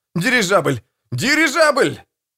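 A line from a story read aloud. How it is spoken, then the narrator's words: Shouting. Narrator (Russian): Кто-то закричал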